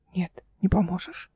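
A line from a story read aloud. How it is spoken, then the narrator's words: Hoarse rasp. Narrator (Russian): прохрипел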